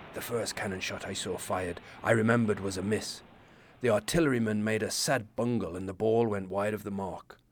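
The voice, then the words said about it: Vague, not-quite-Irish put-on accent. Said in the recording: “He wasn't Irish, not quite sure what accent I'm doing.”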